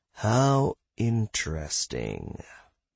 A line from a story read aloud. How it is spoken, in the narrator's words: Joe drawled